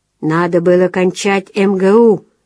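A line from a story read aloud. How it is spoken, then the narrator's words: Snorting. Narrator (Russian): фыркнул отец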